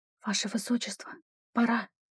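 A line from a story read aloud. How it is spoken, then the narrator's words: Whisper. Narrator (Russian): прошептала она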